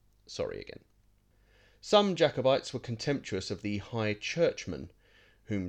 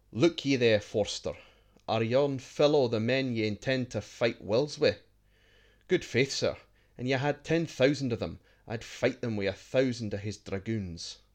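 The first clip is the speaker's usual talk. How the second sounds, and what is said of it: Deliberately bad put-on Scots accent. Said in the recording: “I apologise now for my terrible Scots accent”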